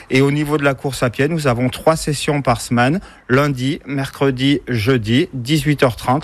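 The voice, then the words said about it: Cantal regional French accent. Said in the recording (French): “vous avez un bel accent qui nous vient. ... Du Cantal.”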